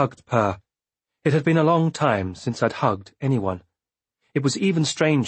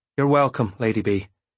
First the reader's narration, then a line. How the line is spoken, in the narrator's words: he said, and his voice shook only a little